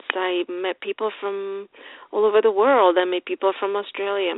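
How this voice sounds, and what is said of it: Noticeable non-native accent. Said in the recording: “my accent was too thick ... I have an accent”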